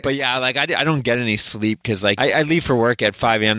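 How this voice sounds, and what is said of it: Deeper, bassier congested voice. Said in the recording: “my voice is sounding a little bit sexier, a little bit manlier, a little bit more bassier. I do have I'm fighting a cold.”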